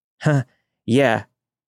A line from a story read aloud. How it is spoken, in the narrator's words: I said, my voice shaking